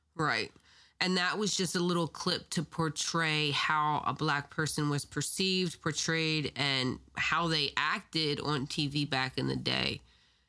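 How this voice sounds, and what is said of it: Raspy voice from a cold. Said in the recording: “excuse my voice, I'm sick. I have a cold. So, my voice is a little raspier.”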